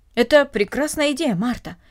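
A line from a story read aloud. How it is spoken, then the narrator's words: Calmer speech. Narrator (Russian): сказал мистер Хельмут более спокойно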